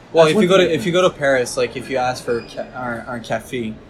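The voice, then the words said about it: Quebec French accent. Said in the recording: “I say that with such a Quebec accent.”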